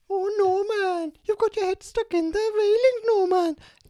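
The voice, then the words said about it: Welsh cartoon character voice impression. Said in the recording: “do an impression? ... Who's the bird from Fireman Sam? ... because we're Welsh”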